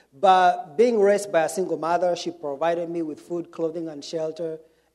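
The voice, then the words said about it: Kenyan English accent. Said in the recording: “I was born and raised in Kenya ... I have, you know, a funny accent”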